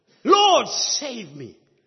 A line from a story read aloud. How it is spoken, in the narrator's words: as he was about to sink, he cried out to the Lord